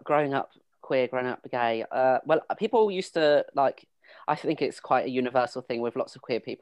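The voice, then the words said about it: Slightly unusual rural English accent. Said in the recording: “I grew up in Suffolk in the countryside, on the border to Essex. So that's why I have a bit of a weird accent.”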